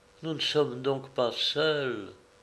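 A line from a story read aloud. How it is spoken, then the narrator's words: Shivering murmur. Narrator (French): murmura-t-elle avec un frisson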